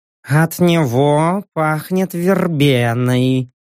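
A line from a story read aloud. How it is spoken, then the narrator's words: Purring voice. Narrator (Russian): мурлыкающим голосом сообщила грациозная тигрица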